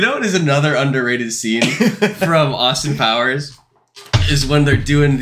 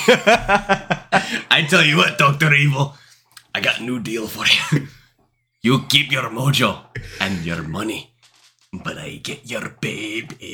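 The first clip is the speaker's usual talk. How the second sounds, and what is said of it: Good impression of a movie character. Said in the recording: “It's so good. Like, it's such a good impression.”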